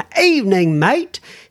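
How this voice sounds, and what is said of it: Dodgy put-on London accent. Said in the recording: “that's the the accent I'm putting on it now ... my dodgy London accent.”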